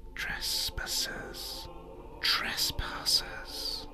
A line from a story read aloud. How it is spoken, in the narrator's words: the trees above you whispering